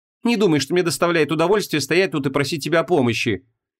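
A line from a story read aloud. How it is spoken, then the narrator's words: Snapping. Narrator (Russian): огрызнулась Ванесса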